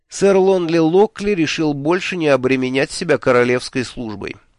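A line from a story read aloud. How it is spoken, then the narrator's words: Dry statement. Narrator (Russian): сухо сказал Мелифару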